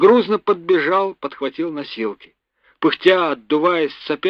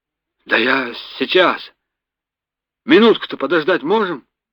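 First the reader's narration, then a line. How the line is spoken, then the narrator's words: Flustered muttering. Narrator (Russian): растерянно бормотал боцман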